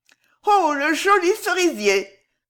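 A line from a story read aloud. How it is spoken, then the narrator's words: Women exclaiming together. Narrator (French): s'écrièrent les femmes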